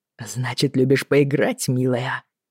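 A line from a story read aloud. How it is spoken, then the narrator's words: Cheerful whisper. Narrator (Russian): весело шепнул Боннет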